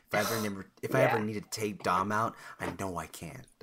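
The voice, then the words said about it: Imitates another person's voice. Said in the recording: “That's my impression. ... Yeah. That was good. ... That was really good. That sounded just like her.”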